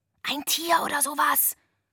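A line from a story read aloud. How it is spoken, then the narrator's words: Whispered. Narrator (German): flüsterte ich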